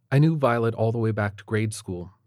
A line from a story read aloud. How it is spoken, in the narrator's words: she said